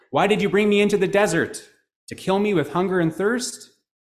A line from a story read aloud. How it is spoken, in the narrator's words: he called out to God, saying